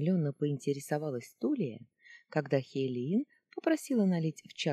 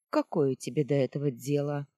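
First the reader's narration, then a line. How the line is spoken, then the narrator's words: Cold woman's question. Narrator (Russian): холодно поинтересовалась Хейлиин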